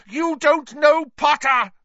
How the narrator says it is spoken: shrieked Snape

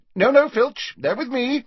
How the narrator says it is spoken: she added hastily

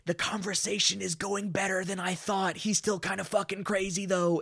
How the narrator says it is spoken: he'll whisper shout out the side of his mouth

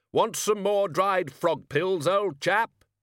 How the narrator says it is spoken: He shouted

